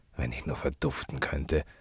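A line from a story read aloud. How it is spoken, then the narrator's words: Murmured. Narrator (German): murmelte Gabriel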